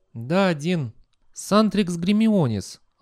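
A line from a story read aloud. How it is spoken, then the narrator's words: Sigh. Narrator (Russian): она вздохнула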